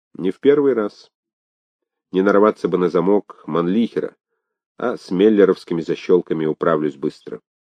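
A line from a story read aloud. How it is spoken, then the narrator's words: Calm. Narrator (Russian): Он спокойно сказал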